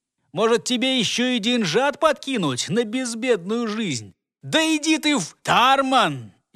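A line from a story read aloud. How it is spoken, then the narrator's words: Worker's shout. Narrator (Russian): Еще раз выкрикнул в сторону своего товарища работник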